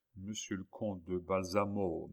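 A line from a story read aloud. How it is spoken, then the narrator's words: Murmuring. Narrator (French): murmura Philippe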